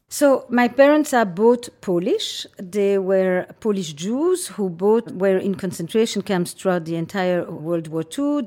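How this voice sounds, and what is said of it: Slight transatlantic accent. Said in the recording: “a bit of a transatlantic accent”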